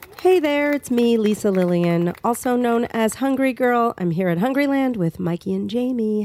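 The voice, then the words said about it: Raspy voice from a cold. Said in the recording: “I have a little bit of a cold ... I have a cold, so hopefully my raspy voice is making people happy”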